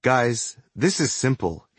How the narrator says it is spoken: he said in a calm and measured voice

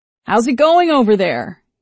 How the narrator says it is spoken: shouted over the roar of the wind and the engine

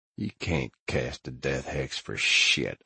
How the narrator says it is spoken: I muttered, blood spilling out with my last words

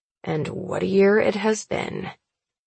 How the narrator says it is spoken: he mutters

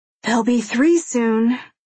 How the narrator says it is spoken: she says, sighing

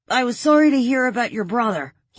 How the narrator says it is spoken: he called out

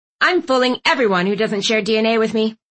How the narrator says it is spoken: Aunt Tilly snapped

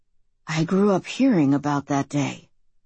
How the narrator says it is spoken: he breathed

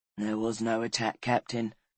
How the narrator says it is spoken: said Collarin softly

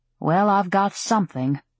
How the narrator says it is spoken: she said dryly

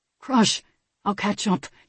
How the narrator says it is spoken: he whispered

